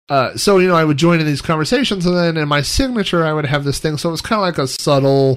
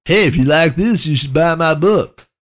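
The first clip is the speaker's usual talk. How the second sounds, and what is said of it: Silly put-on voice. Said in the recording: “I don't know why I have a stupid voice every time. I don't really talk like that.”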